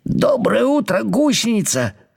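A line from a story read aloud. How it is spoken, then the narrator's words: Cheerful voice. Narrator (Russian): сказал он бодрым голосом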